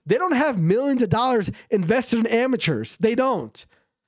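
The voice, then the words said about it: Excited yelling. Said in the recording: “why am I getting so excited? I don't know. I'm sorry for yelling.”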